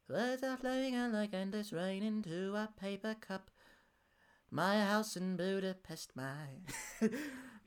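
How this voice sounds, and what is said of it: Sung imitation of another person's voice. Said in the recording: “John Lennon just doing a George Ezra impression ... I'll do it in that kind of voice.”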